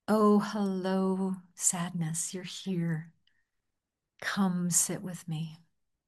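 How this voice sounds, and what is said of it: Warm, welcoming voice. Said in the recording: “in a welcoming voice.”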